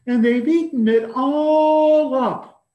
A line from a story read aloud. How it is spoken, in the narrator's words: cried the wee small baby bear in his wee small voice